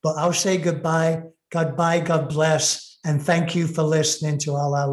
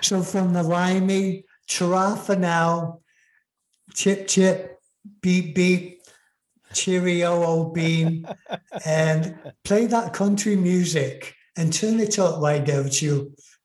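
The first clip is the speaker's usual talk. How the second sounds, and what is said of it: Attempted English accent. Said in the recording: “I'm trying to put on my English accent, but it's hard to do after being here most of my life.”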